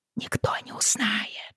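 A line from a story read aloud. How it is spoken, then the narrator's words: Hopeful whisper. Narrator (Russian): прошептала, все еще надеясь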